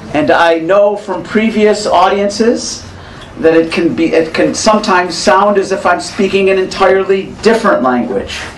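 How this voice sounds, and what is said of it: American English accent. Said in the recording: “I speak a very strange dialect of English. It is called American English.”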